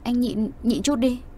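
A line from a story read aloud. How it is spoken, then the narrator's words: Embarrassed stammering reply. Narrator (Vietnamese): Mặt đỏ như phải bỏng, cô lắp bắp trả lời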